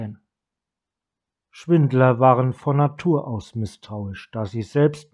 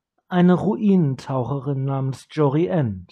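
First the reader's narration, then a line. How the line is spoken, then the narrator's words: Plain. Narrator (German): sagte Kiora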